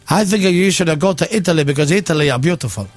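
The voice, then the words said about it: Put-on Italian accent. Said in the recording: “Why do you do the Borat accent when I'm here? ... It's the Italian accent.”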